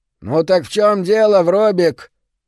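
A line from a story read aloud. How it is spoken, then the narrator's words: Nasal voice. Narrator (Russian): гнусавит Круизел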